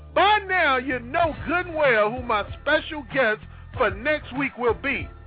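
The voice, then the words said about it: Excited, hyped-up voice. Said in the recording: “You know I'm hyped. You can hear it in my voice.”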